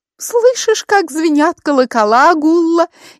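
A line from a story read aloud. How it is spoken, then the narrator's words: Frightened little voice, mimicking dialect. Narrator (Russian): испуганным голоском произнесла Луиза, пародируя диалект жителя Сконы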